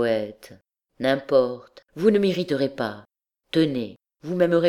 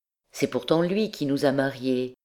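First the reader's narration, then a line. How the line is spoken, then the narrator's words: Timid remark. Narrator (French): observa timidement le poète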